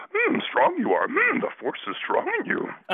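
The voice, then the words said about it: Yoda impression voice. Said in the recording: “do your Yoda ... So I'm doing my impression of his Yoda”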